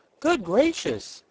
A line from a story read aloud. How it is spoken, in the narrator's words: exclaimed Betsy